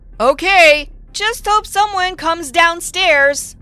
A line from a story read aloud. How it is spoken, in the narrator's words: I said loudly